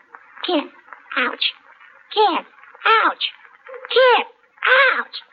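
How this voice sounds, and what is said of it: Imitates animal sounds. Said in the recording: “my animal impersonation ... That's two porcupines necking.”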